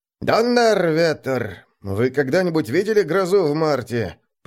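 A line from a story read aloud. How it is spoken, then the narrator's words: Grumbling over crowd noise. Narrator (Russian): проворчал кто-то под навесом сквозь общий гомон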